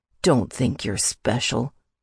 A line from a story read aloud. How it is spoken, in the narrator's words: he sneered